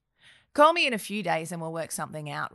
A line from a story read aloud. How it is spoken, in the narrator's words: replied Steve